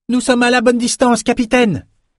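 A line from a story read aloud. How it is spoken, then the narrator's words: Lookout shouting. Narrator (French): cria la vigie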